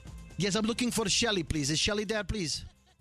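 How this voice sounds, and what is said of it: Put-on foreign accent, not convincing. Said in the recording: “there's this guy with an accent ... So I call him up as that guy. ... With an accent? ... You're not good with accent. ... Let's listen to this accent.”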